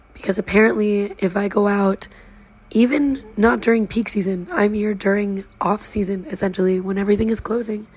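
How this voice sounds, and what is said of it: Hoarse, nearly lost voice. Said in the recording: “My voice is completely on the gone. I am voiceless ... I get a sinus infection and I can't talk anymore.”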